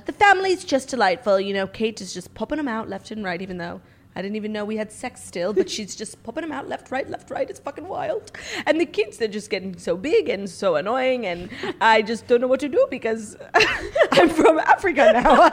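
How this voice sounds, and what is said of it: Unsteady put-on British accent. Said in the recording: “The accent's very hard. ... it was hard to stay in it ... I literally go from like British to French to Australian.”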